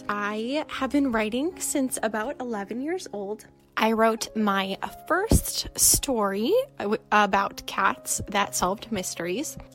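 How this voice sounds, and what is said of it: North Dakota accent, elongated O's. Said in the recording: “I grew up and currently live in North Dakota, if you couldn't tell by the accent and those elongated O's”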